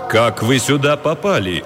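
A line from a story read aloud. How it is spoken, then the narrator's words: Menacing question. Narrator (Russian): грозно спросил представитель ФБР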